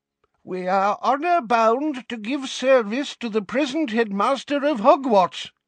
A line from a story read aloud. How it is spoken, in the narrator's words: cried a frail-looking old wizard, whom Harry recognised as Dumbledore's predecessor, Armando Dippet